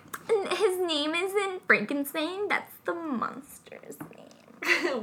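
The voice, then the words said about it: Pretentious girl voice. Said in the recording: “I really want to never hear you use that voice ever again ... That's my pretentious girl voice.”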